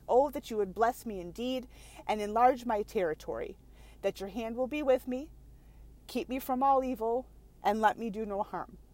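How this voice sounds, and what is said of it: Choked-up, emotional voice. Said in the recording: “the only reason I'm getting choked up”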